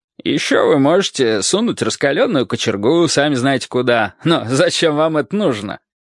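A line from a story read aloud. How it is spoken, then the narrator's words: Joyful laughing. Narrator (Russian): радостно рассмеялась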